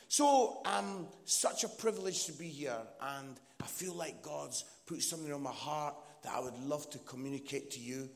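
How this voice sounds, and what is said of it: Scottish accent. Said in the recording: “my Scottish accent ... I'm from Edinburgh”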